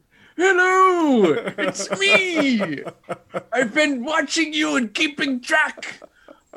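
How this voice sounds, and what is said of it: Bad impression of an old man. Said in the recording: “It sounded like I was trying to be an old Steve Rogers, and I think it turned into like a bad Bill Cosby impression there somehow.”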